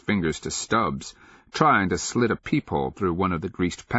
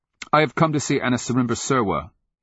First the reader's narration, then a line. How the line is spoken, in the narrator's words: he blurted in answer to their scowling gaze